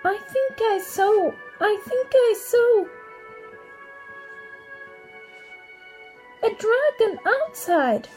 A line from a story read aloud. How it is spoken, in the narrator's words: Gretel cried convincingly